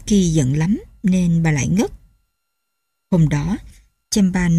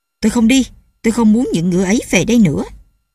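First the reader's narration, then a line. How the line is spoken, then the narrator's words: Furious old man shouting. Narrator (Vietnamese): Ông nổi khùng lên quát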